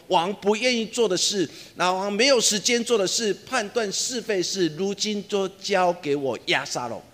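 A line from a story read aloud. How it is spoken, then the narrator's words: Public proclamation. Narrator (Chinese): 亚沙龙在城门口当中对所有人说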